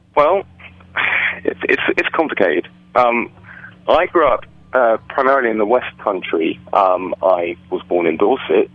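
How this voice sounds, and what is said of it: English accent. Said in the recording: “What kind of accent is that? Is that an English accent? ... That is an English accent you are hearing”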